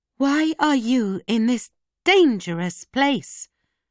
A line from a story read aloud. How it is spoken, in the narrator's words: she cried